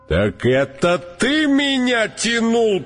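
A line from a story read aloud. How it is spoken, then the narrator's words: Roaring elephant. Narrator (Russian): проревел слон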